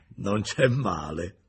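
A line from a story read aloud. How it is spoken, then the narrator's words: Laughing. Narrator (Italian): disse ridendo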